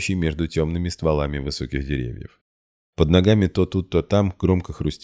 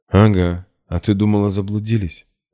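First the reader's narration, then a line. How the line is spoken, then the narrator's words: Breathless kid, knowing snort. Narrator (Russian): тяжело дыша, малой многозначительно хмыкнул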